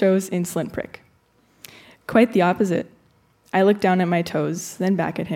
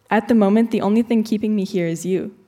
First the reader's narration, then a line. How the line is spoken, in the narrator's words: I said finally